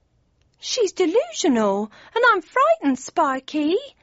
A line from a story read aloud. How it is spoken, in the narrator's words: whimpered Cindy, in her best pathetic girly voice